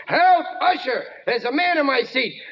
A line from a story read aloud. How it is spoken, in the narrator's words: old maid who started to yell